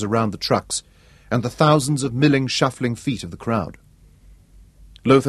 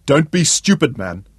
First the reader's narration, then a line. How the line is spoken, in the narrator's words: the commander snapped